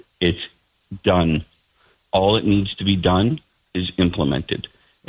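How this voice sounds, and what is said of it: Frustrated, angry tone. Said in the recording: “that is our frustration. I'm sure you can hear it in my voice... I do hear it in your voice. I hear more than frustration. I hear some anger in your voice.”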